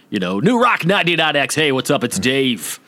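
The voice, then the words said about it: Exaggerated radio DJ voice. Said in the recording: “put on the voice a little too much ... don't puke ... That's me puking.”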